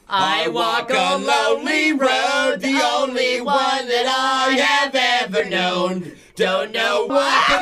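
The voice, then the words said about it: Singing in a strange put-on accent. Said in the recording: “You guys all adopted a strange accent ... all of a sudden.”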